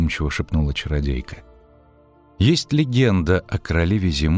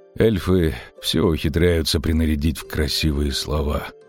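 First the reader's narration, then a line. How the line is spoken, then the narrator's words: Sleepy mutter. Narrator (Russian): буркнул он сонно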